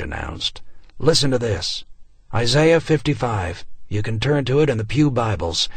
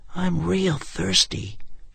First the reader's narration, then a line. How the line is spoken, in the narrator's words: whispered